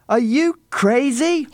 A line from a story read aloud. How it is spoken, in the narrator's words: He shouted